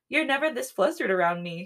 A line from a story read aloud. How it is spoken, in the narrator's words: she giggles